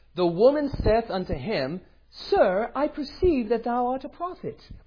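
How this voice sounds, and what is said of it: Put-on British accent. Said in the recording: “with a British accent, because they all have British accents”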